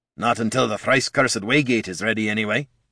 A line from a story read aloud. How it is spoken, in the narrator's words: Gorm grumbled